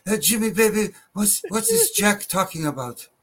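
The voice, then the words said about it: Bad Iron Sheik impression. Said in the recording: “my bad Iron Sheik impersonation”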